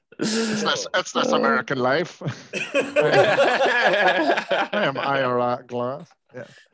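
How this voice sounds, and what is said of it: Voice impression. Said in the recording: “That is the best impression that's ever been on this podcast... It sounded exactly like Jerry Adams.”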